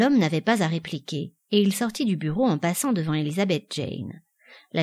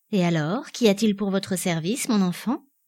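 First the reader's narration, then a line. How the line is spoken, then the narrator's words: Cordial. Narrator (French): demanda-t-il d'un ton cordial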